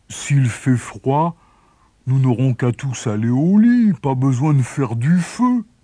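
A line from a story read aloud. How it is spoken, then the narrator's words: Boy grumbling. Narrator (French): grommela le garçon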